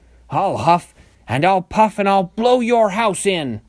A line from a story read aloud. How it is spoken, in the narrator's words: he roared